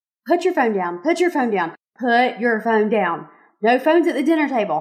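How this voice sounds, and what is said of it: Nagging mom voice. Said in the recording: “Did y'all hear my mom voice there? I kind of have that one perfected”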